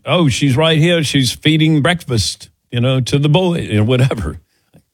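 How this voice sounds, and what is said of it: Imitates another person's accent. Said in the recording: “How was that accent?”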